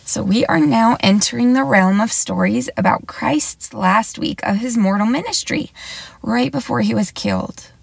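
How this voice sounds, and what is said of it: Scratchy voice. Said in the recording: “My voice sounds a little bit scratchy because I've been a little bit sick lately”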